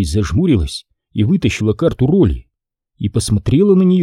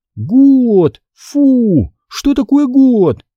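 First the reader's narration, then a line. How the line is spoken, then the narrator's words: Disappointed exclamation. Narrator (Russian): воскликнула она, не в силах скрыть разочарование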